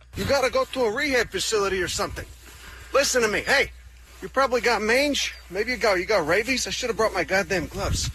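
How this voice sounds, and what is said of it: Strong Chicago accent. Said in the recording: “Oh, now he's all of a sudden he's very Chicago. ... All of a sudden the accent.”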